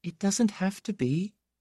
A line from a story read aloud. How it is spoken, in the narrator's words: she said in that thin voice